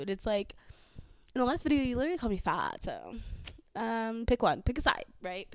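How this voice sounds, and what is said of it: Valley girl accent. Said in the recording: “a lot of hate from men on my accent. I am from the valley, so I will have a valley accent.”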